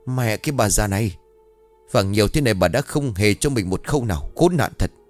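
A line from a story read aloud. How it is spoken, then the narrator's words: Furious shout through teeth. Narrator (Vietnamese): trợn mắt lên rồi nghiến răng quát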